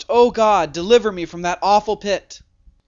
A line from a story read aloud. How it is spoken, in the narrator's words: The dying man cried out